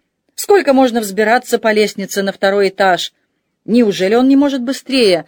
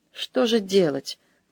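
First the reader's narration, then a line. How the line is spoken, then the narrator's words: Muttered. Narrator (Russian): пробормотал де Дюрбуаз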